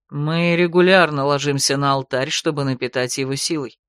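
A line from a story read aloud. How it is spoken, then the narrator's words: Calm reply. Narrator (Russian): спокойно ответил ей Ролан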